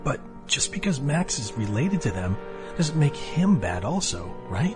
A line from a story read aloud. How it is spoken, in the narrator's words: Casey asked in a meek, guilty voice